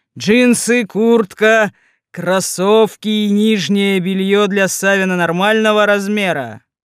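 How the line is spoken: Loud voice, yeti. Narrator (Russian): произносил снежный человек громким голосом

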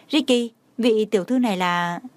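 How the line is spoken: Puzzled, smiling. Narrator (Vietnamese): Thủ tướng đang nghi hoặc mỉm cười gật đầu nhìn cháu trai nói

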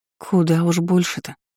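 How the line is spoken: Grumbling mutter. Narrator (Russian): ворчливо пробормотала Нилринья

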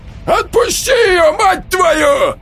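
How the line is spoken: Yell. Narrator (Russian): заорал Олег

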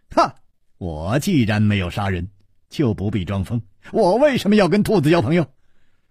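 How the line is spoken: Laughing. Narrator (Chinese): 笑着说

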